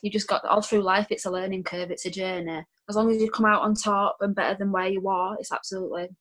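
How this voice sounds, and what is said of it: Speaks with a noticeable accent. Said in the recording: “with my accent ... with your accent”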